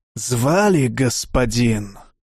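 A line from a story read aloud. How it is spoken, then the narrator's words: Hoarse voice. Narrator (Russian): послышался хриплый голос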